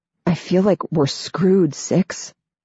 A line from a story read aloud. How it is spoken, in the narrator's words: Nine says, his voice hoarse